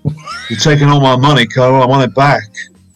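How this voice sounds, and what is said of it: Imitates another person's voice. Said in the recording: “Can you do an Elvis impression?”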